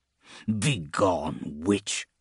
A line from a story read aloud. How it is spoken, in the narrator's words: Grim snarled